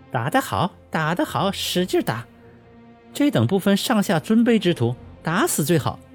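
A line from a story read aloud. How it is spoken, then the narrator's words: Gleeful cheering. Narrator (Chinese): 刘云中笑得满脸开花，拍手叫好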